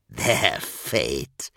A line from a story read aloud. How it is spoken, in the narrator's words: croaked